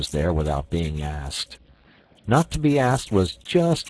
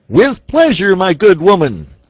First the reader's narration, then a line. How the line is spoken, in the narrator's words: said the archbishop, stooping to shout in her ear